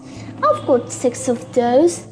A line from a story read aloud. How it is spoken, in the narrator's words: said quietly